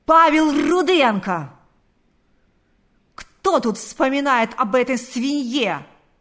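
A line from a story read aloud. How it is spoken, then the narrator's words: Yelling. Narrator (Russian): заорал он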